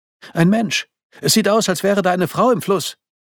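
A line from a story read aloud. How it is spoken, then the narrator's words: Shouted. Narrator (German): rief sie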